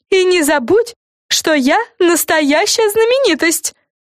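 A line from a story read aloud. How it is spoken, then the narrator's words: Shouted. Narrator (Russian): выкрикнула Фрэн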